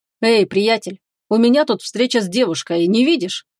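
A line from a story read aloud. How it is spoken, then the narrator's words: Rather rude interruption. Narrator (Russian): перебил его довольно грубо Горват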